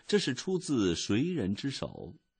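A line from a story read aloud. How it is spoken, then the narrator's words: Crying. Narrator (Chinese): 埃米尔的妈妈一边说，一边开始哭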